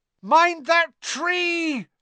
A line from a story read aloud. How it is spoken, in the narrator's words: Harry bellowed